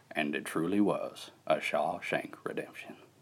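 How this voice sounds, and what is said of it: Imitates a film narrator's voice. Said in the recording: “I could do an all right Shawshank Redemption.”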